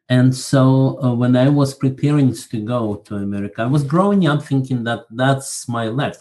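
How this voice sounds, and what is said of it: Slight Russian accent. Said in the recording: “You probably can detect a little bit of a Russian accent”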